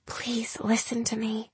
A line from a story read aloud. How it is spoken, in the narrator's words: Gemma spoke in a whisper